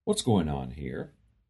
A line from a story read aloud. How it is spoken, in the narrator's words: Calmly say